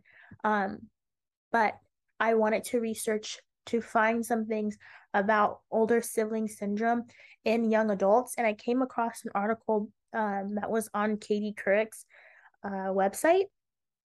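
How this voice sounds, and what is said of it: Weak, strained, partly lost voice. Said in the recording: “excuse me that I sound a little off. I'm under the weather, so my voice is kind of gone.”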